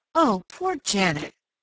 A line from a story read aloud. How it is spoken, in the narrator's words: Penny groaned